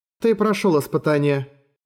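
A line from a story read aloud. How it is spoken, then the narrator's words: Calm. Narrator (Russian): спокойно сказала она ему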